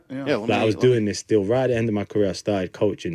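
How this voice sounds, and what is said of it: Strong British accent. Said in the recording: “I know he's British. ... Oh, it's got a tremendous British accent. ... Tremendous, tremendous British accent.”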